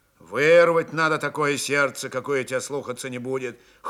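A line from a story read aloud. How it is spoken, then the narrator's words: Cold advice. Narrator (Russian): холодно посоветовал Григорий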